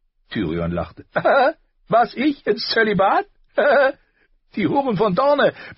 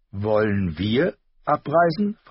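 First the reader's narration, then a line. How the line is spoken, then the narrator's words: Plain. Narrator (German): fragte sie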